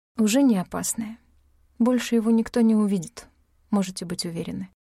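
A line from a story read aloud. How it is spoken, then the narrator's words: Tired, quiet. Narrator (Russian): устало тихо сказала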